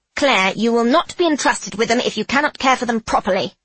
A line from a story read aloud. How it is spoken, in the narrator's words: DuBarry barks